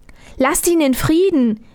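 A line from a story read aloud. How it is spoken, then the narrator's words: Calling. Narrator (German): rief Armerle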